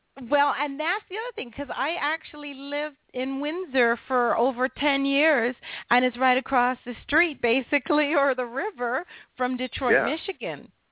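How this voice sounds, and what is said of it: American-sounding accent. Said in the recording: “sound American”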